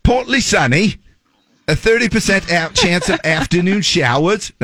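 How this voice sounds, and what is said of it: Put-on Australian accent. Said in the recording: “Now we went into Australia. That was my Australian accent... No, that's Australian.”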